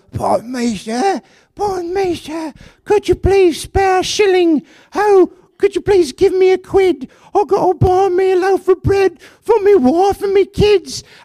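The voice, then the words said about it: Pleading beggar character voice. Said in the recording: “do a voice? ... like the Hunchback of Notre Dame”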